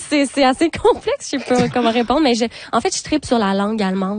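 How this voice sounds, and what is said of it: Québécois French accent. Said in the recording (French): “c'est sûr que votre accent le dit”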